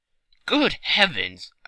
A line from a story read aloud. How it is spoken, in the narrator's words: I cried